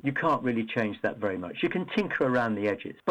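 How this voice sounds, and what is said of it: British English accent. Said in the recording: “in the UK, as you can tell from my accent, that's where I'm from.”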